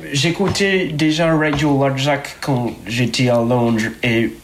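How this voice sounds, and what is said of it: Foreign accent speaking French. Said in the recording (French): “Désolé, mon accent, j'habite la France depuis peu.”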